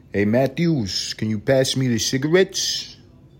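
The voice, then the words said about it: Put-on old New York accent. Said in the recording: “they grew up 60s, 70s, 80s in New York. Like the accent, it's fucking hilarious... that's how people talk back then”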